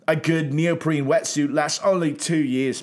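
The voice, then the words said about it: Put-on British surfer accent. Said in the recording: “I don't think I'm doing a good British accent... Oh, you're great. Not because of surfer British accent”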